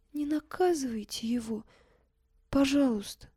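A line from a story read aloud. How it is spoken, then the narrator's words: Barely audible tearful whisper. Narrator (Russian): Катя еле слышно сквозь слезы прошептала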